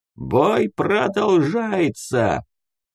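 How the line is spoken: Hoarse barking through megaphone. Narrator (Russian): хрипло рявкнул пожилой дядька в матюгальник

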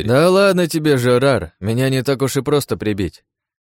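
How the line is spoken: Cheerful reply. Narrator (Russian): весело отозвался тот, кого назвали Жан-Полем

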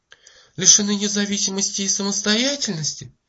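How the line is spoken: Surprised exclamation. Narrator (Russian): воскликнула Мэри

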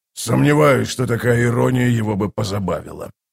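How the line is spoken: Muttering. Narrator (Russian): пробормотал воевода

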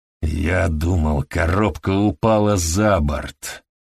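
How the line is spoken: Growled. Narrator (Russian): прорычал он

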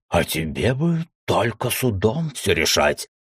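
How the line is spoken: Hoarse wheeze. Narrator (Russian): прохрипел Уталак

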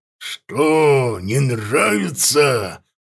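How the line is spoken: Growling worg. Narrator (Russian): прорычал ворг

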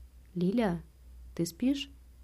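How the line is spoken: Barely audible whisper. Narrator (Russian): спросил я едва слышным шепотом

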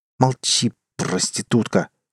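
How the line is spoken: Angry hiss through teeth. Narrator (Russian): со злобой процедил я

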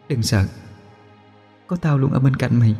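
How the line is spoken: Soft murmur. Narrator (Vietnamese): Môi cô khẽ mấp máy nói

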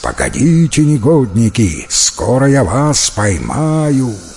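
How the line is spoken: Menacing growl. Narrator (Russian): его грозное рычание

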